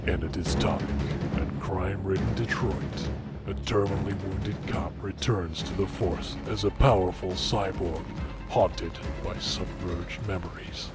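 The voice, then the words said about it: Movie trailer narrator voice. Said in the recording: “do that trailer voice ... do that in trailer voice”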